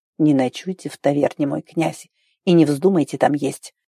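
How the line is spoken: Quiet hoarse wheeze. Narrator (Russian): Тихо просипел Нильс

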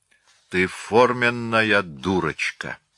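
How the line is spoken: Muttered through teeth. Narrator (Russian): пробурчала сквозь зубы

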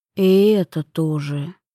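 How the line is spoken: Reluctant grumble. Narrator (Russian): буркнул нехотя

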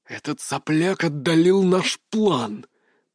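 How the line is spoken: Hissing. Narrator (Russian): прошипел

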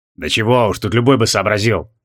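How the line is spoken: Modest mumble. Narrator (Russian): скромно пробурчал Джориан

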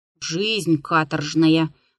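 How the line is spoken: Grumbling with mouth full. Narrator (Russian): ворчал он, перекатывая языком во рту крохи черного хлеба

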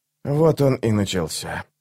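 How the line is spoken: Whisper. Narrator (Russian): прошептал алхимик

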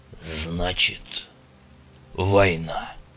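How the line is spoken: Growl. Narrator (Russian): прорычал Седой

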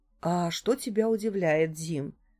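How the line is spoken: Calm reply. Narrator (Russian): спокойно ответила мать

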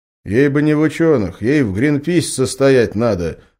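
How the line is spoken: Snorting. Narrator (Russian): хмыкнул Иван

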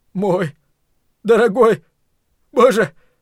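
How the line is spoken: Hoarse rasp. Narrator (Russian): прохрипел Ллойд

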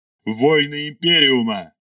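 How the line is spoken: Roared. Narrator (Russian): взревел Ардамаил

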